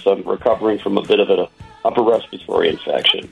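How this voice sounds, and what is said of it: Rough, sick-sounding voice. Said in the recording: “Excuse my voice.”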